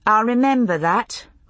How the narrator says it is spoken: Brianna said dryly

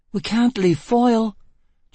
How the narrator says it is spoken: Gisbella cried

